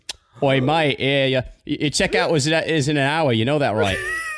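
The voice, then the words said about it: Bad put-on Australian accent. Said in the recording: “Your Australian accent is so fucking trash.”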